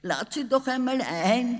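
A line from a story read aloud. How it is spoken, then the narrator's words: Giggling father. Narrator (German): kicherte der Vater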